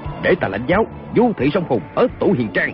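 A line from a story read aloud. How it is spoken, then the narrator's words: Sharp shout. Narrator (Vietnamese): Kiều Phong quát lên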